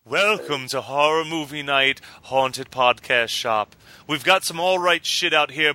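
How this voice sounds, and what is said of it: Spooky character voice. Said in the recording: “do a spooky voice”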